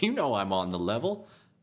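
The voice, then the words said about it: Bad gangster-style character accent. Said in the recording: “it's definitely a gangster accent. ... a bad whatever accent Flambo has. I did a bad impression of it.”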